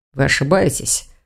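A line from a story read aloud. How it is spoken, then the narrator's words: Dragon muttering. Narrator (Russian): пробормотал дракон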